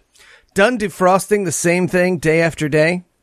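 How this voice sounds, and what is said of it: Announcer voice. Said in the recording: “why are you doing announcer voice?”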